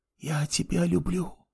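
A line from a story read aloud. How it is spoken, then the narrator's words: Whispered. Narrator (Russian): прошептала она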